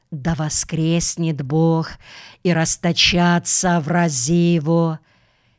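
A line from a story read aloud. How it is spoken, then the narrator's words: Trembling whisper. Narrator (Russian): шептала с невольной дрожью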